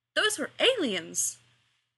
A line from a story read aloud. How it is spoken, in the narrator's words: exclaimed Giles